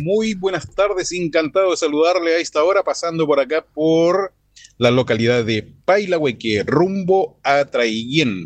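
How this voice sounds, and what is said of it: Radio announcer voice. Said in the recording (Spanish): “Este sí que tiene voz de locutor.”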